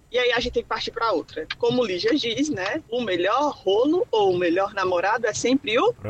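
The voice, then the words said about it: Brazilian accent from Ceará. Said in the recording (Portuguese): “Esse sotaque é muito bom, né? ... Muito maravilhoso. ... Fortaleza, Ceará?”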